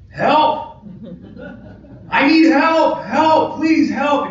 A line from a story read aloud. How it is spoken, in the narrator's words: she's not losing it quite yet, but she's screaming at the top of her lungs